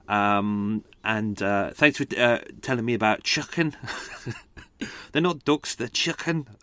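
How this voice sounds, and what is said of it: Poor attempt at a regional accent. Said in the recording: “That's probably the worst accent ever, but I tried my best.”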